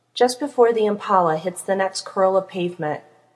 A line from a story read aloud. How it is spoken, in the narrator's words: Castiel growls